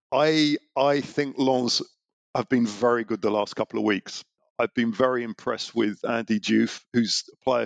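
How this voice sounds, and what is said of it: Hoarse, sore-throated voice. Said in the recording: “I've got a bit of a sore throat this morning”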